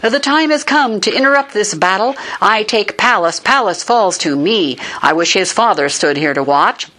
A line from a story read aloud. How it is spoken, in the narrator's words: seeing his own men cried